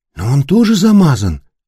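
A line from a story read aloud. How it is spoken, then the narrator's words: Uncertain reply. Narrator (Russian): неуверенно отозвалась Кася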